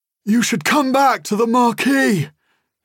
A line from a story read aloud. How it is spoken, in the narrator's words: he shouts, between gasps of breath